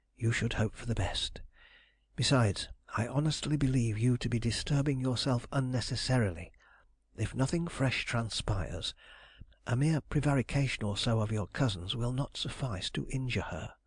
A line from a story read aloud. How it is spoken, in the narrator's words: I whispered